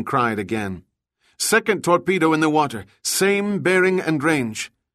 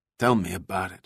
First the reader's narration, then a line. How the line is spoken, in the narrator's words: Juan muttered